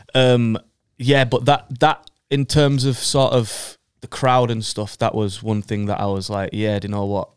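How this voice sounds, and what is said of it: Bradford English accent. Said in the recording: “I have a Bradford accent”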